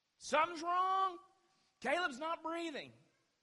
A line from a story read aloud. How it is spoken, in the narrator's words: I yelled out